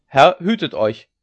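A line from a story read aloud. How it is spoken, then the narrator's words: Calling out. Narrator (German): rief einer aus dem Haufen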